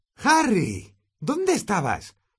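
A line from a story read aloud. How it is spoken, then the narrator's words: Shrill question. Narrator (Spanish): preguntó Hermión con voz aguda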